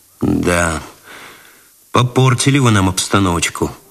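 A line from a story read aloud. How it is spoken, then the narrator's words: Sighed. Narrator (Russian): вздохнул Цветков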